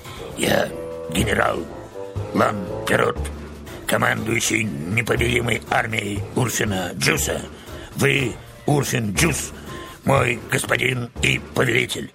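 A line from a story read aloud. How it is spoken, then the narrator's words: Hoarse but clear. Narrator (Russian): Деревянная фигура хрипло, но четко повторила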